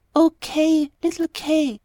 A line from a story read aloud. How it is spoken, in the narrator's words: sighed the girl